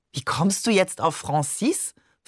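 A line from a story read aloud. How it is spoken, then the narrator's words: Plain. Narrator (German): fragte Barbe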